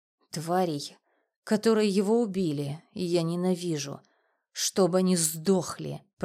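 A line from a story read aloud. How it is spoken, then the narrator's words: Hissed. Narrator (Russian): прошипела она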